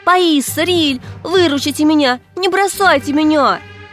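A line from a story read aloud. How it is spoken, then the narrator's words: Captive screaming. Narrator (Russian): закричала захваченная Лисси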